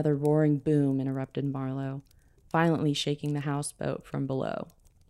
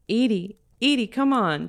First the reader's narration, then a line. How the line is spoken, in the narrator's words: she yelled with no response